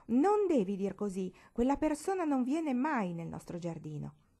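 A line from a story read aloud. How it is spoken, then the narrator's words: Exclaiming. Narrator (Italian): esclamò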